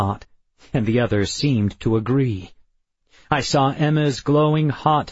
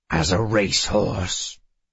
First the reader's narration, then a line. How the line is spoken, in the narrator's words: Addison growled